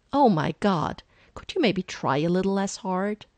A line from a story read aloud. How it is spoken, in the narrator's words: He blurts it out without thinking